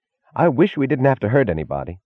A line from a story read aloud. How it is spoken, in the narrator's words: added, pleading